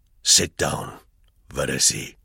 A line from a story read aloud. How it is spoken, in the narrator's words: he added quietly